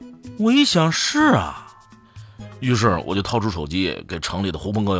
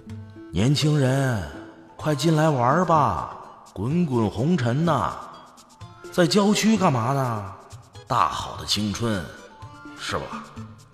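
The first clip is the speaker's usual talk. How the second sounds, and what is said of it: Sinister, tempting evil voice. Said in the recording (Chinese): “耳边就出现了幻听，好像有个邪恶的声音说”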